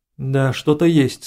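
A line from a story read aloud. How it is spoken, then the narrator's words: Plain. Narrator (Russian): сказал генерал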